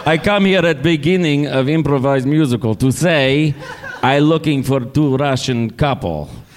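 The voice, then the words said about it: Put-on foreign accent. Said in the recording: “This is the accent. This is the impression.”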